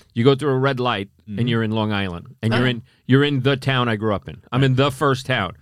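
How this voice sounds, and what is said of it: Long Island New York accent. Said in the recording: “You kind of have a Boston lilt. ... it's a Long Island accent, which has been enhanced most likely from being a New York City cop.”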